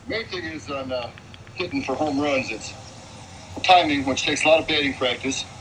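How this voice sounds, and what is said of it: Midwestern American accent. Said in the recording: “that is actually a Midwestern accent there”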